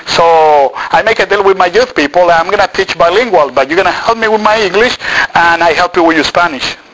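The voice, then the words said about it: Non-native English accent. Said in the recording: “I know I have an accent ... my pronunciation was not right, still is not right”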